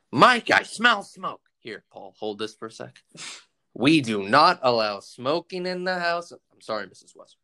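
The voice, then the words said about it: Imitates movie character voices. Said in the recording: “impersonations for each scene? I just want to hear some impersonations.”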